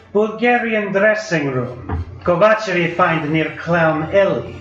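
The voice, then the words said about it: Strong foreign accent. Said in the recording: “His accent hasn't faded much in the 20 years he's been in America.”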